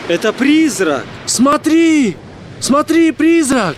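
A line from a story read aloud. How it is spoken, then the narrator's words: Group shouting. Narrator (Russian): Они кричали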